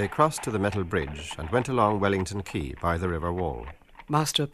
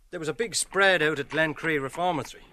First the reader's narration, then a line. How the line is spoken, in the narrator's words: Lenehan said eagerly